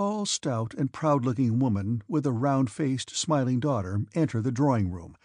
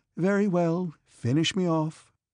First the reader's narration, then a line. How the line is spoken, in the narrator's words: she said to the footman in a sad voice